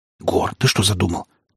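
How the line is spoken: Urgent whisper. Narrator (Russian): таким же порывистым шепотом спросил меня брат

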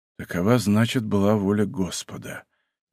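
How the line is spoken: Quiet. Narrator (Russian): тихо сказал он

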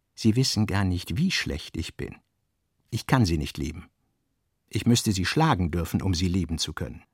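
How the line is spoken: Quiet, meaningful reply. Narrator (German): Leise und bedeutsam erwiderte er

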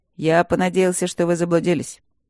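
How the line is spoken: Dry. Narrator (Russian): сухо произнес Макс

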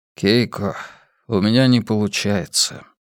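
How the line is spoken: Sighed. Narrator (Russian): вздохнул Хайнц

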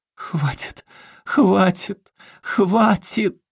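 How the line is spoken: Shrill scream. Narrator (Russian): пронзительно закричала Сильвия

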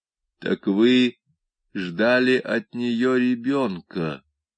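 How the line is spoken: Captain, quiet and pensive. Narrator (Russian): произнес тихим, задумчивым голосом капитан Штевурка

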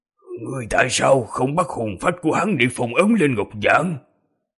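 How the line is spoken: Hoarse grating voice. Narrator (Vietnamese): một thanh âm khàn khàn giống như hai thanh sắt cọ sát vào nhau phát ra

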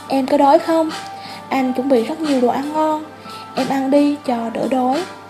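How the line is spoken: Sighing. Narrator (Vietnamese): Anh thở dài

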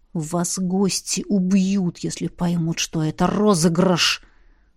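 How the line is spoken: Furious hiss, necromancer. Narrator (Russian): прошипел разъяренный некромант

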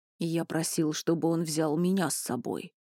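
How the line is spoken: Grumbling. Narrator (Russian): пробурчал Туч

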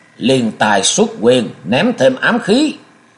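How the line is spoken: Sudden loud shout. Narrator (Vietnamese): hắn chợt quát ầm lên

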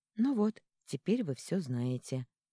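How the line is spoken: Soft gentle. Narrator (Russian): мягко сказала Леона

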